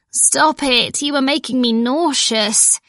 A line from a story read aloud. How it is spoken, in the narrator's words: I moaned